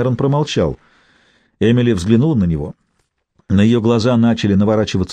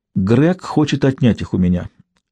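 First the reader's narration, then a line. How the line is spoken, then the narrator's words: Unnaturally calm tone. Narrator (Russian): произнесла неестественно спокойным тоном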